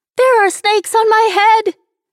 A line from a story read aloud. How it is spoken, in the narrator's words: Nicole screamed